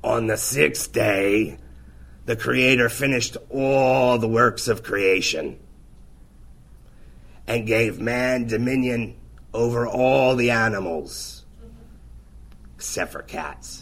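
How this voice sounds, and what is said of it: Raspy imitation of another man's voice. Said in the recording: “I'm going to try to do this, and he has a very raspy voice, okay? So I'm going to channel Mark for you right now.”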